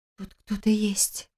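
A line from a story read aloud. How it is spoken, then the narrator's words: Whispered explanation. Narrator (Russian): объяснила Лиля, почему-то шепотом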